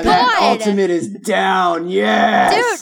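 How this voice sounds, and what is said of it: Imitates a proud game announcer voice. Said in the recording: “That was the perfect impersonation,... 10 out of 10.”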